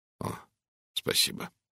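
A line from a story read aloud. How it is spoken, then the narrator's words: Trembling voice. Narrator (Russian): дрогнувшим голосом произнес он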